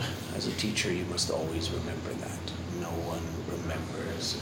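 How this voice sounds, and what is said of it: Usual voice. Nothing is said of it.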